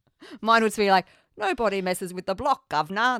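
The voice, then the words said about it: Bad put-on Cockney British accent. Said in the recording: “That was really bad. ... That was pretty bad. ... bad Cockney accents ... a terrible British accent”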